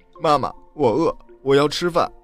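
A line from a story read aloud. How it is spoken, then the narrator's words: Child crying while speaking. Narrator (Chinese): 托比 哇的一声哭了起来，边哭边说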